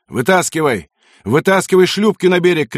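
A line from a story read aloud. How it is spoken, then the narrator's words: Shouting. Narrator (Russian): кричал лейтенант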